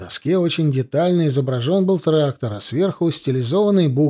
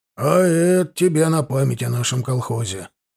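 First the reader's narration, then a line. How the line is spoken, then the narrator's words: Solemn presentation. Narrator (Russian): торжественно вручил председатель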